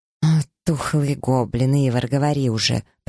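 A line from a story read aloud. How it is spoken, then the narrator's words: Witch growling. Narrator (Russian): прорычала ведьма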